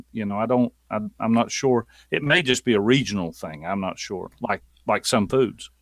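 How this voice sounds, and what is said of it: Thick Southern US accent. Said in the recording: “sounds more Southern ... I sound more Southern than our Alabama friends ... People tell me that I have such a thick accent, Southern accent”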